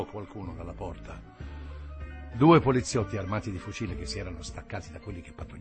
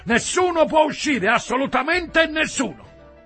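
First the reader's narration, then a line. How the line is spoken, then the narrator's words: Policeman shouting. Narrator (Italian): uno dei poliziotti gridò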